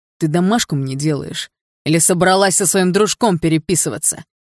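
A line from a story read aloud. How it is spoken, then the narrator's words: Harsh bark. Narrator (Russian): Рявкнул Барс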